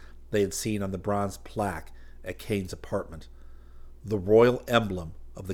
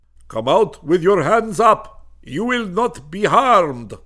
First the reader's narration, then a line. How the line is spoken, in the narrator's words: a voice bellowed in English